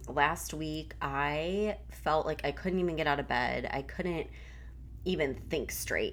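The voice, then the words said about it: Congested voice. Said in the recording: “You could probably still hear it in my voice. I'm still a little bit congested”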